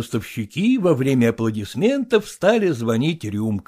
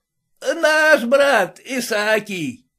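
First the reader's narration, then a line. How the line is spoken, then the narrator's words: Shout from a group. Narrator (Russian): Кто-то в их среде крикнул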